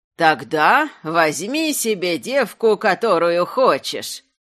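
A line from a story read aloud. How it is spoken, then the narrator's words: Creaky ritual singsong, laughing. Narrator (Russian): подражая купальским песням, которыми провожают к ящеру девушку-жертву, пропела скрипучим голосом ведунья и засмеялась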